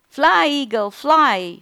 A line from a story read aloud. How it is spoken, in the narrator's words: shouted the biologist